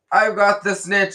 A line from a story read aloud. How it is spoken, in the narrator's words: he shouted